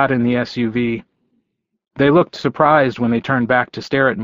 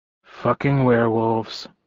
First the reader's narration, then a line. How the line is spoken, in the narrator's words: muttered